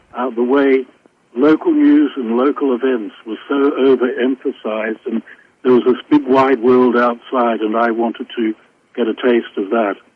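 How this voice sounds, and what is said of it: British-sounding accent. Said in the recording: “you do have a British accent, at least to my American ears you do”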